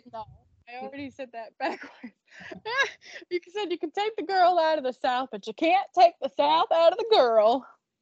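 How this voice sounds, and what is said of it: Southern accent, slow speech. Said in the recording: “accent is coming alive ... she's speaking slower and slower”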